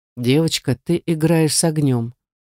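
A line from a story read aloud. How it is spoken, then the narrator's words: Calm remark. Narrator (Russian): все так же спокойно заметил Руслан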